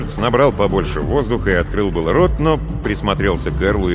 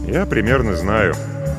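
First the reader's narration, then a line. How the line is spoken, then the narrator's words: Sad smiling tone. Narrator (Russian): Эрл грустно улыбнулся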